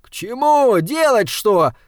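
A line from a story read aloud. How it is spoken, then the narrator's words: Yelling. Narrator (Russian): заорал Саймон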